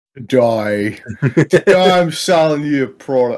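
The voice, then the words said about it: Brief put-on accent. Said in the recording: “I don't know where that accent went”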